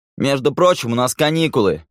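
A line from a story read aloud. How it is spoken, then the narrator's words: Shouted. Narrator (Russian): крикнул он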